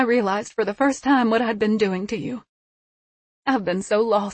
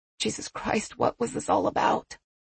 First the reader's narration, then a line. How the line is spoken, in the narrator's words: Patricia said more quietly